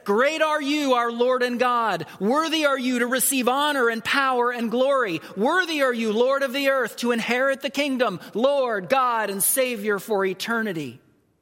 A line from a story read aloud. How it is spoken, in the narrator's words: they would shout